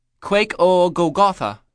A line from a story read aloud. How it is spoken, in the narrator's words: I asked